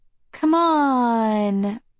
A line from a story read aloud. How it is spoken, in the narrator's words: Violet whines